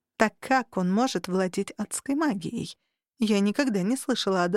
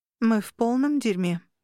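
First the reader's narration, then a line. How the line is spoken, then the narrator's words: Sighing. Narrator (Russian): вздохнула я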